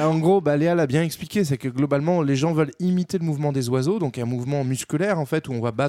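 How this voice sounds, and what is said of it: Usual voice. Nothing is said of it.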